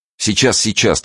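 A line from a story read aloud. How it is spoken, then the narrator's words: Hurried reply. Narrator (Russian): торопливо отозвался Николка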